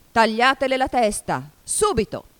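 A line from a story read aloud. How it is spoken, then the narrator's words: Queen's furious shout. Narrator (Italian): La regina diventò di porpora per la rabbia e, dopo di averla fissata selvaggiamente come una bestia feroce, gridò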